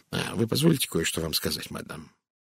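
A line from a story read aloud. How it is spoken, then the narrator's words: Gloomy. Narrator (Russian): мрачно произнес детектив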